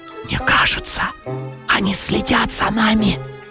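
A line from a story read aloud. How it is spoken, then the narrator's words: Whisper. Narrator (Russian): прошептал Гриша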